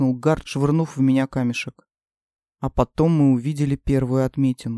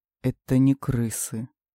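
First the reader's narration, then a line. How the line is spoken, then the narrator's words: Muttered. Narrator (Russian): пробормотал один из нас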